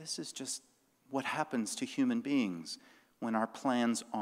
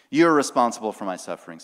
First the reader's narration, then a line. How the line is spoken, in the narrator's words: Sarai says